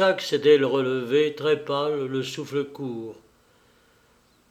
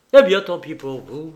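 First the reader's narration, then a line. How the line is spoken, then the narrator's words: Angry exclamation. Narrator (French): s'écria-t-il rageusement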